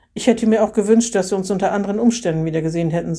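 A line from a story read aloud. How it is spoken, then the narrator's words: Plain. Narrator (German): sagte er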